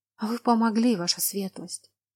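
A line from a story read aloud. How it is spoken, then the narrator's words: Soundless mouthed whisper. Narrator (Russian): Одними губами прошептала женщина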